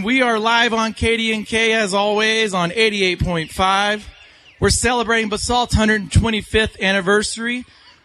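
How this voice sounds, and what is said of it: Out of breath, panting. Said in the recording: “I'm about out of breath”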